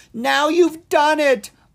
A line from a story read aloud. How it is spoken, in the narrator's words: Owen squealed